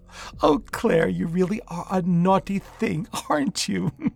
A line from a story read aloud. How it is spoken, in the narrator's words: She laughed